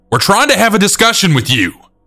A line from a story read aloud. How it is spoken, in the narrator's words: our area manager saying loudly